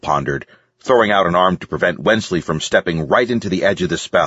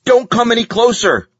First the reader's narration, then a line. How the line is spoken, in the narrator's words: yelled